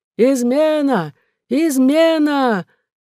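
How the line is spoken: Loud shout. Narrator (Russian): он громко закричал

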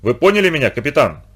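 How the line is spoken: Irritated question. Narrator (Russian): раздраженно спросил немец

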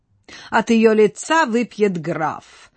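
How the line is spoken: Laughing. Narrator (Russian): засмеялся Вальдемар

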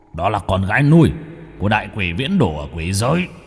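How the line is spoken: Hurried lowered voice. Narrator (Vietnamese): Hắn vội hạ giọng

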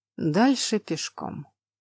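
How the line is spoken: Sighing. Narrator (Russian): вздохнул герцог

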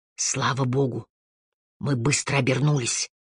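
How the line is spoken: Whisper. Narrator (Russian): шепнул Харри

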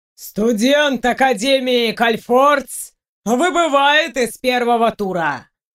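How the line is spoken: Booming voice. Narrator (Russian): Прогремел голос ящерки

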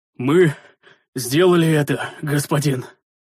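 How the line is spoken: Hoarse exhale. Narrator (Russian): хрипло выдохнул Рикар

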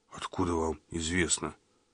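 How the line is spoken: Mutter. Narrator (Russian): Пробормотал

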